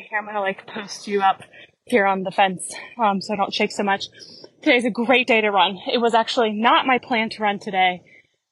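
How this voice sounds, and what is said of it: Out of breath. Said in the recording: “I'm going to be a little bit out of breath. So I'm in my cool down for half marathon training.”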